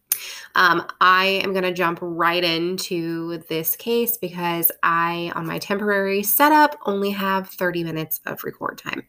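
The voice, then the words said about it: Raspy, sick-sounding voice. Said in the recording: “I am ill. ... my voice is a little more annoying than usual and it's raspy.”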